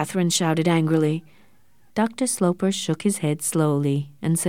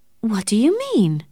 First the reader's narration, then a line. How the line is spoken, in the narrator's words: cried Catherine